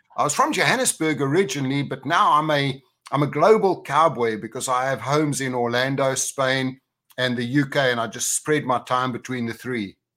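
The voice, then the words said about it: South African accent. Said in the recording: “don't expect a UK accent, because I come originally from South Africa. So that's where the weird accent's coming from.”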